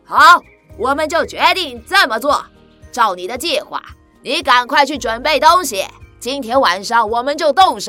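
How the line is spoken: Loud. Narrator (Chinese): 八个强盗……大声地说

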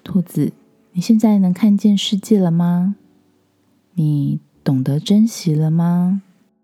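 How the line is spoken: Gentle question. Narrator (Chinese): 狐狸医生温柔的问他

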